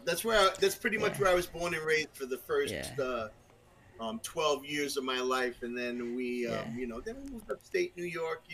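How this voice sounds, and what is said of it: Brooklyn New York accent. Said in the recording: “you have the New Jersey accent ... my accent's from Brooklyn”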